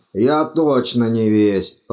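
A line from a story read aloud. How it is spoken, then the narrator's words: Groan. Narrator (Russian): простонал декан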